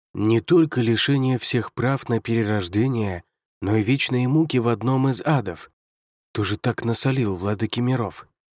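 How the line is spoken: Muttered. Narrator (Russian): пробормотал Юнгуань

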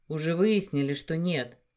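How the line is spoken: Soft interruption. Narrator (Russian): мягко оборвал ее

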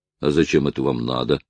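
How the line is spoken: Grumbling. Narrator (Russian): проворчал Бенджамин

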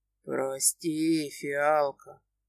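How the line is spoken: Tender whisper in ear. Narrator (Russian): ласково шепчет на ушко

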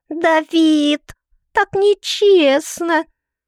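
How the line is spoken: Wailing yell. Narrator (Russian): Тея завопила

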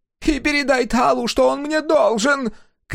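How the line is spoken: Merchant shouting after someone. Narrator (Russian): крикнул ему вслед торговец

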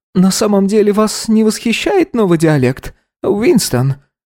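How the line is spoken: Almost sadly. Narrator (Russian): произнес он почти печально

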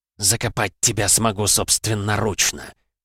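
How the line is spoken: Woman hissing. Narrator (Russian): прошипела женщина

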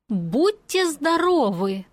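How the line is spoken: Deliberately loud. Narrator (Russian): нарочито громко пожелала

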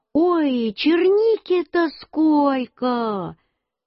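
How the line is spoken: Mother's excited shout. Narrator (Russian): Мама пришла и закричала

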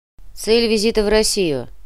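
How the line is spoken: Even, cool tone. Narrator (Russian): Вопрос был задан на хорошем английском, ровным, но холодноватым тоном

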